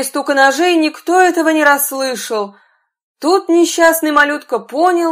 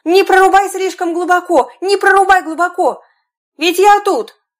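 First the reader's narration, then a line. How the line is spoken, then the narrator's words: Tiny boy shouting loudly. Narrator (Russian): мальчик с пальчик закричал ему, что было мочи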